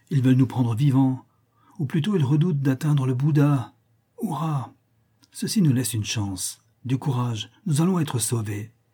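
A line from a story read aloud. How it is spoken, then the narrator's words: Exclaimed. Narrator (French): s'exclama Novalez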